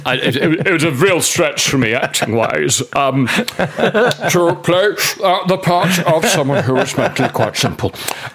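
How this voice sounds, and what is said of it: Bad Ian McKellen impression. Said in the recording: “I've slipped into a bad impression of Sir Ian McKellen”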